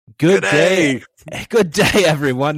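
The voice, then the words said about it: Put-on Australian accent. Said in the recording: “there is our Australian accent.”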